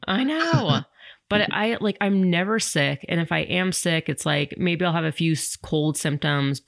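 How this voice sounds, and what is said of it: Rough, sick-sounding voice. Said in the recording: “does my voice sound like crap, I still have this freaking cold”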